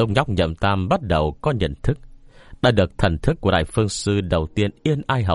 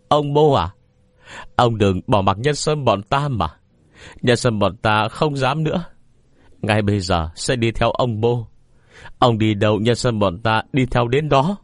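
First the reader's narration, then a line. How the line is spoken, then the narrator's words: Sobbing, pleading. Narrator (Vietnamese): khóc lóc sụt sùi nói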